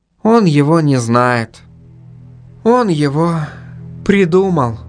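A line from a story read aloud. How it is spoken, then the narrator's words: Reply after heavy sigh. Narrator (Russian): тяжело вздохнув, ответила Инга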